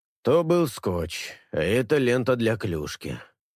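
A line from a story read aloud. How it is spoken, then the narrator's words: Tired exhale. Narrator (Russian): устало выдыхает Рид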